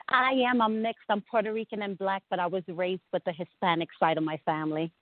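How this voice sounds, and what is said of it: Brooklyn accent like Rosie Perez. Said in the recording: “your accent reminds me so much of Rosie Perez in that movie”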